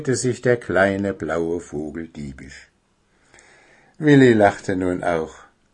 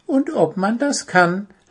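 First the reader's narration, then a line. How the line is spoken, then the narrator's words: Laughing. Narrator (German): lachte Zwitschi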